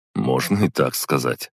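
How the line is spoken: Wry chuckle. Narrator (Russian): хмыкнул я

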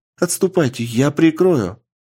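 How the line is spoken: Said loudly. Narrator (Russian): громко сказала Рейн

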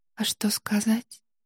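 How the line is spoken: Whisper. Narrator (Russian): прошептала Несмеяна

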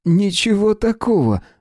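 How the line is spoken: Laughing. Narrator (Russian): засмеялся Юкия

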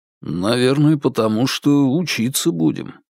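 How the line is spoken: Low voice. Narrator (Russian): вполголоса ответил Сергей

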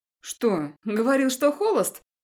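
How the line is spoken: Laughing. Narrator (Russian): Рассмеялась Алиса Юрьевна

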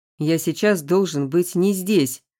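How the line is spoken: Growl. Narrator (Russian): рыкнул

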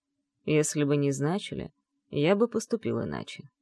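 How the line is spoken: Dry reply, husband. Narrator (Russian): сухо ответил муж

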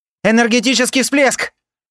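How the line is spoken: Shouted alarm. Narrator (Russian): заорали с поста контроля

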